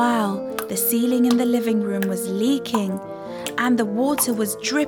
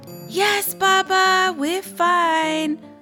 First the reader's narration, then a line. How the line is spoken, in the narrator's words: wailed Khadija